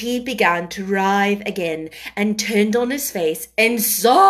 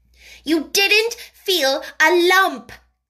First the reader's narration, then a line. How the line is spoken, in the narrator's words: contradicted fiercely